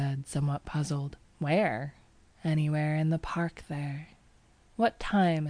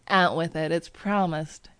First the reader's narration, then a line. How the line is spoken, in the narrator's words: he laughed